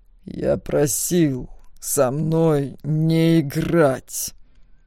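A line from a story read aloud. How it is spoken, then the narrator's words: Hissed, dragon. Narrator (Russian): прошипел дракон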